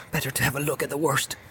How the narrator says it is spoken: muttered

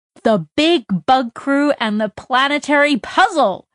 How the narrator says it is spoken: Jane shouted along with the kids

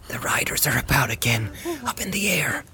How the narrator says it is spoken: he said in a hoarse whisper

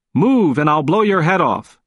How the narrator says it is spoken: The officer shouted the words

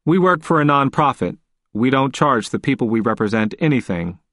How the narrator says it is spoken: I said as blandly and politely as I could

